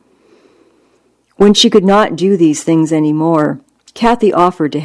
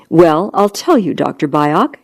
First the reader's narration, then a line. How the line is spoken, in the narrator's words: she answered in the same measured, polite tone